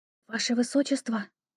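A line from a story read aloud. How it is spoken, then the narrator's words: Ingratiating whisper. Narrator (Russian): вкрадчивый шепот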